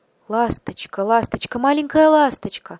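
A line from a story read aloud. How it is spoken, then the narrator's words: Pleading. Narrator (Russian): взмолился принц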